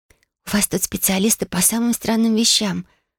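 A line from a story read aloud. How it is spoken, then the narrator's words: Whispered. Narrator (Russian): прошептала она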